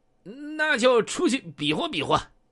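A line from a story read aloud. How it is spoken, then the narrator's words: Sneering, loud and crisp. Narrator (Chinese): 小北京 冷笑着 这声音洪亮而且干脆的说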